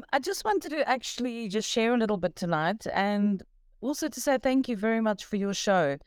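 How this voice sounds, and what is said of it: South African accent. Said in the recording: “I love your accent.”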